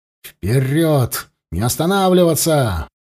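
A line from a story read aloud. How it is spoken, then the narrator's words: Roar. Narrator (Russian): взревел Савва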